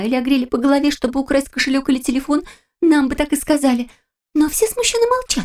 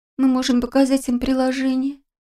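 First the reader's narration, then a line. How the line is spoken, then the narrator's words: Miserable voice, near tears. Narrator (Russian): несчастным голосом произнесла крыска, чувствуя, что вот-вот заплачет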